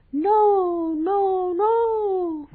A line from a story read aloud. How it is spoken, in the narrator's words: cried the little bellflower